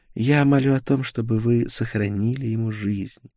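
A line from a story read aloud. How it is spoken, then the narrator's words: Quiet pleading. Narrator (Russian): тихо произнесла Гертруда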